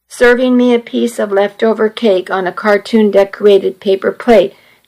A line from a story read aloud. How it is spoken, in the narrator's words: Daniel said